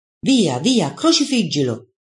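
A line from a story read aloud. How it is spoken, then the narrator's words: Clamorous crowd shouting. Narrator (Italian): i giudei reagiscono schiamazzando e gridando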